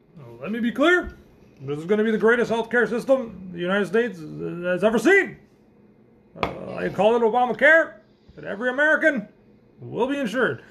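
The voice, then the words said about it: Poor Obama impression. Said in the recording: “That was a terrible Obama accent there, but impression.”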